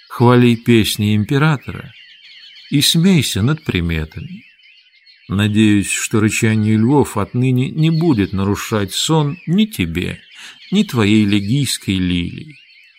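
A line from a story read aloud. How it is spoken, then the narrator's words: Quiet reply. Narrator (Russian): Так же тихо ответил Петроний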